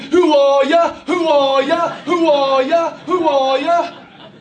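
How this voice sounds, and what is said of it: Mimicked English football-fan chant accent. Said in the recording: “where'd you get the accent from? All they were doing was mimicking what they saw the football fans on the TV in England doing”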